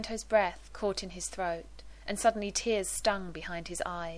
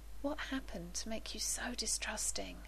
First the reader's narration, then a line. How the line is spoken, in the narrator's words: he whispered